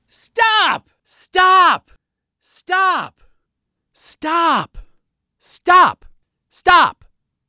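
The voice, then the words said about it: Yelling the same word repeatedly. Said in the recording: “there is a lot of background noise. That's why he's yelling. ... There's a lot of people yelling over top of each other.”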